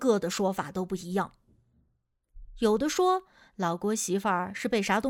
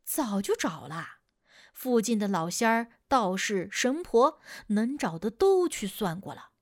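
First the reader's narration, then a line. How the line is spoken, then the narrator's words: Sighing. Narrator (Chinese): 老郭叹着气说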